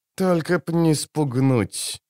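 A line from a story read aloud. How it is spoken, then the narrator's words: Through gritted teeth. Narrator (Russian): процедил Филин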